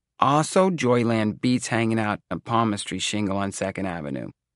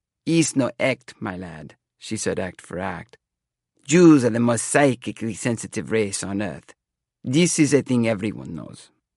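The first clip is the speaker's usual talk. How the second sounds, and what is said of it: Put-on foreign accent. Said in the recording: “She dropped the accent.”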